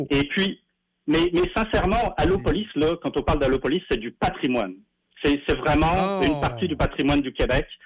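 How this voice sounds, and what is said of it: Slight French accent. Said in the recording (French): “je crois détecter un petit accent français”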